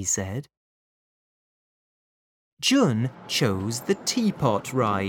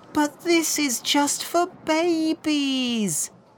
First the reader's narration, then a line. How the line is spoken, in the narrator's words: wailed Lin